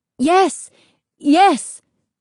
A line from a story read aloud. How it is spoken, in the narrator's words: they cried